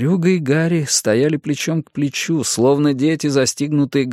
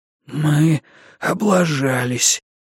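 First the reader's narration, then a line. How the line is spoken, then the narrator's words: Hoarse beast wheeze. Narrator (Russian): просипел зверюга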